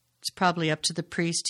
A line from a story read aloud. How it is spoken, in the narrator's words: he said